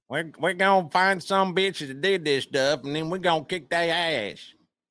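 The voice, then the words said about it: Imitates another person's voice. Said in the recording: “That's my W impression.”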